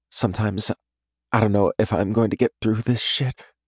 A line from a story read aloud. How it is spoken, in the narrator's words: she whispers